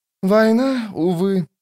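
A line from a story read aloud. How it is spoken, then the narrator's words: Sighing. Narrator (Russian): вздохнул он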